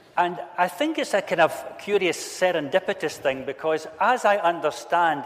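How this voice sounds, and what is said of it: Non-Northern Irish accent. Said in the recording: “as you can hear by my accent, I'm not from Northern Ireland”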